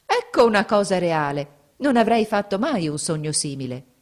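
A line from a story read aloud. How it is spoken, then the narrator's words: Exclaimed. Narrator (Italian): esclamò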